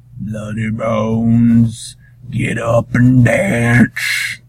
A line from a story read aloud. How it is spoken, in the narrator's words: the enchanted Rawhead called out